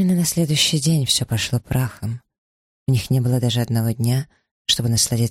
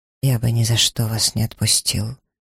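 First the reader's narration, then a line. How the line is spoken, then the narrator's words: Hoarse. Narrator (Russian): хрипло закончил фразу Сомерсет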